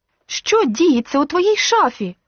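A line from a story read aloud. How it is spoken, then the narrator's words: Angry exclaim, losing control. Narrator (Ukrainian): Більше не маючи сили стримувати себе, гнівно вигукнула Мілена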